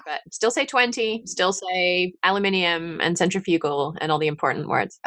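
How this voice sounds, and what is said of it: English accent softened by America. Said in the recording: “I hear a lilt. So I'm wondering if it's kind of from an Irish or Scottish background. And there's a slight New Zealand twang to it ... that's the English that's been over in the States for too long.”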